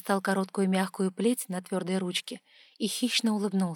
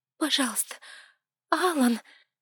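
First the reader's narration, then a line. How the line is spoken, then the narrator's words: Frightened. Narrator (Russian): испуганно проговорила я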